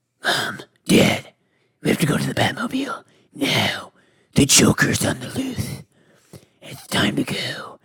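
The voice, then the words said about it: Batman character voice. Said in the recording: “She didn't like my Batman ... my dad always loved that accent.”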